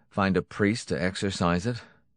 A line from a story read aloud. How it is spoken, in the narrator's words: Jackson snorted